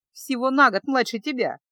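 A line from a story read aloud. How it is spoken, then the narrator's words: Laughing young woman. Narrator (Russian): засмеялась дочка герцога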